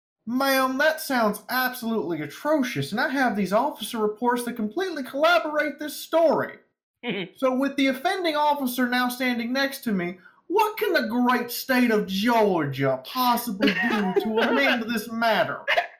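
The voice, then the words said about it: Exaggerated stereotypical Southern US accent. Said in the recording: “in the most stereotypical Southern accent you've ever heard ... It sounds like Georgia. It sounds Georgia AF.”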